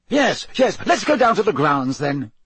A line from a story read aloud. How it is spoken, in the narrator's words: said Fudge impatiently